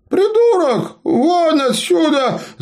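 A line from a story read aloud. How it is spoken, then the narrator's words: Old man's anguished yell. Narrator (Russian): заорал старый мастер с тоской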